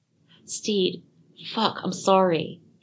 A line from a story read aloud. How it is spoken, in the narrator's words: he gasped